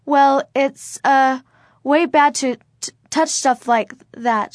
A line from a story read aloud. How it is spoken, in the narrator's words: she stammered, feeling stupid for telling an older boy what to do